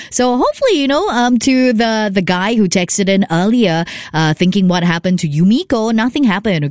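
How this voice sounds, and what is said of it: Slightly scratchy voice. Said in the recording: “the throat is a little bit scratchy”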